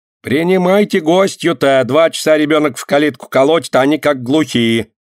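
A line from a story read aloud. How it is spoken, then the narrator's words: Shouting from afar. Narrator (Russian): крикнула из сада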